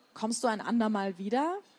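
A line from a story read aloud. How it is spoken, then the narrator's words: Plain. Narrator (German): sagte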